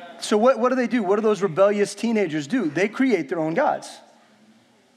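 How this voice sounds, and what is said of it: Usual voice. Nothing is said of it.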